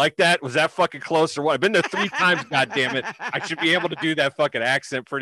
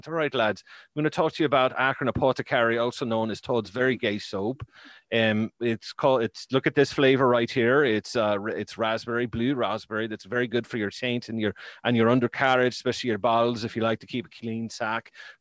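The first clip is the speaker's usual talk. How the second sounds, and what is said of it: Put-on Irish accent. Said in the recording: “I'd have to do this our sponsor part with like an Irish accent.”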